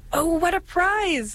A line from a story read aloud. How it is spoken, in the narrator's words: she exclaimed